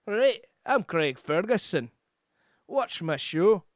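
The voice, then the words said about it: Put-on Scottish accent. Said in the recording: “Scottish is more like this”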